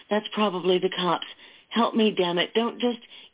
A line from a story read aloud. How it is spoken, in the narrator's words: she cried